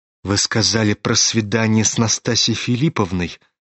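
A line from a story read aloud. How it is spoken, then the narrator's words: Mumbled. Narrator (Russian): пробормотал он наконец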